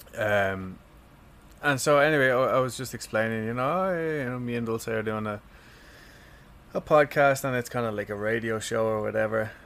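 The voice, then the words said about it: Irish accent. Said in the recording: “I'm actually not from America, even though I do have a strange accent. But so I'm from Ireland.”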